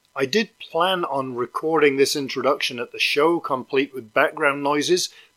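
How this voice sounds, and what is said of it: Worn-out, strained voice. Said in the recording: “my voice is pretty much shot after doing lots of interviews and singing in the car”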